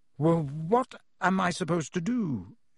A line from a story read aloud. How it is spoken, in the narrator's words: he stammered